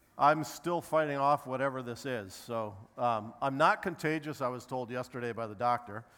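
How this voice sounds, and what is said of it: Strained, sick-sounding voice. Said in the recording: “as you can probably tell, my voice isn't great today... I've been sick all week”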